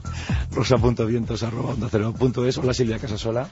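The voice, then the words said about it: Worn, weakened voice. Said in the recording (Spanish): “Qué maravilla, cuando uno tenía la voz de hombre ... parece que te has mutado ... Qué bien sonaba hace unos minutos, ¿verdad? ... la voz no está para ningún sortilegio”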